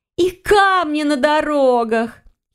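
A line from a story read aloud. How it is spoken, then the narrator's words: Giggling. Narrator (Russian): хихикнула другая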